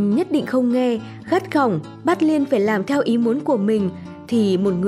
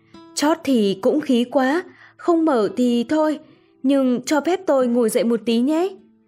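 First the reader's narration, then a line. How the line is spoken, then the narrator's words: Smiling joking tone. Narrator (Vietnamese): Chàng mỉm cười nói đùa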